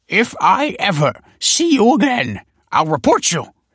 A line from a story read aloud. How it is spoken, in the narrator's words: snapped the scholar